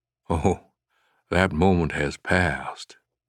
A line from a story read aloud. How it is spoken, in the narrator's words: Finch replied coolly